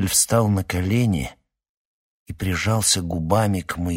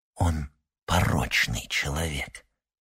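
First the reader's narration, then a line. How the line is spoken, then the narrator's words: Whispered. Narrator (Russian): прошептал Эйдль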